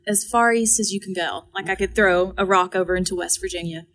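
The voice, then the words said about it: Eastern Kentucky accent. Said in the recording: “If you can't tell from my accent, Eastern Kentucky.”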